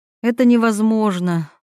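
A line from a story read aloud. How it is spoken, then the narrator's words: Sighing. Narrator (Russian): Милана вздохнула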